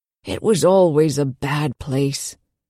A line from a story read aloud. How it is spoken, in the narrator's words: the old man said and lowered his voice to a conspiratorial whisper